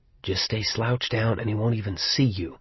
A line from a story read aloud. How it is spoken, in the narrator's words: that craven, traitorous part of my mind whispered